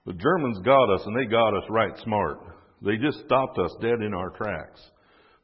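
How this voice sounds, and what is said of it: Put-on Southern American accent. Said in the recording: “I'll do this in a southern accent”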